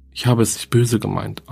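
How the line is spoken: Plain. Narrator (German): antwortete Bertha

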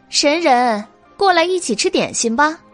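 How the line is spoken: Loud welcoming call. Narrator (Chinese): 白姬见了，大声招呼道

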